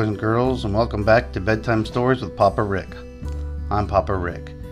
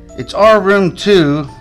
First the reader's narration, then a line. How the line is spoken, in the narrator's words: shouted back